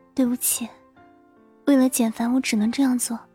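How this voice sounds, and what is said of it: Quiet, softly spoken line. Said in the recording (Chinese): “小声的说了一句”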